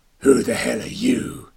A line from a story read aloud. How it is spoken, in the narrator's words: One growled